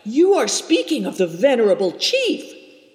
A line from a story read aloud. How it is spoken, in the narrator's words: cried Seven Stars, horrified